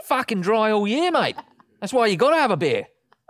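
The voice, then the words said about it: Put-on Australian accent. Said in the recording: “loves doing his accent, doesn't he? ... I love Aussies.”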